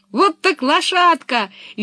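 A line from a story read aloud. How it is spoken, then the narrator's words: Cheerful shout. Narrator (Russian): весело закричала Пеппи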